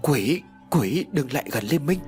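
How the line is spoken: Teeth-chattering stammering scream. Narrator (Vietnamese): Hai hàm răng vẫn không ngừng đánh vào nhau lập cập, hét lên lắp bắp

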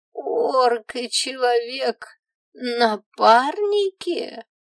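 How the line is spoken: Elder drawling in disbelief. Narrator (Russian): протянул старейшина, не веря моим словам

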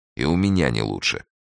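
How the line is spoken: Gloomy. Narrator (Russian): мрачно сказал Эраст Петрович

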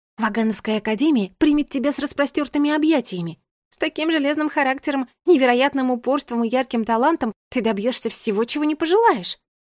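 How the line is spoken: Exclaiming. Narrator (Russian): воскликнула Агата

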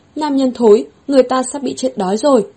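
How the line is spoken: Angry woman. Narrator (Vietnamese): Nàng giận dữ nói

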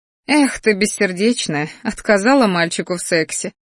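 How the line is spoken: Snorted. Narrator (Russian): фыркнула я

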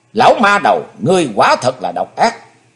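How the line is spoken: Silent inner shout. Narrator (Vietnamese): Chí Tôn âm thầm hét lớn

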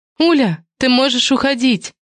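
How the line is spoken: Hurried shout. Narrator (Russian): крикнула наспех

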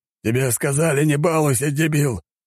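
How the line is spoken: Growling, gruff. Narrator (Russian): рыкнул здоровяк на своего товарища

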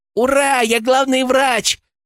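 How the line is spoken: Squealing. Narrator (Russian): взвизгнула Леночка

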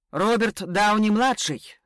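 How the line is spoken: Shouted out. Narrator (Russian): выкрикнул Ян

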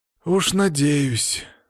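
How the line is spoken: Sigh. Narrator (Russian): вздохнул я

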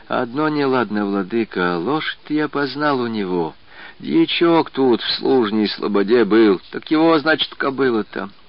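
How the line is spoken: Old man whispering. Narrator (Russian): старец Спиридон прибавил уже шепотом

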